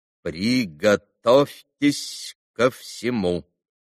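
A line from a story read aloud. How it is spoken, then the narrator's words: Clipped, stressing each syllable. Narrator (Russian): отчеканил, ударяя по каждому слогу доктор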